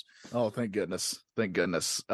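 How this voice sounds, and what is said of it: Noticeable regional accent. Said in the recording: “my accent is real ... your accent isn't laid on so thick as it once was”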